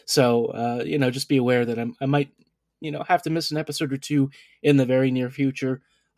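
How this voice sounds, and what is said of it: Quiet, unwell-sounding voice. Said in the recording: “as you can probably tell from my voice and stuff, I'm not feeling 100%... I have to talk a little bit quieter... I may have to clear my throat”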